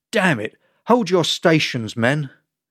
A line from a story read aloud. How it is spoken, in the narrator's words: Kara barked